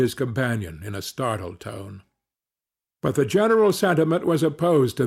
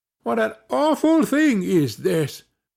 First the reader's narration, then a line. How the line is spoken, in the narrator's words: cried they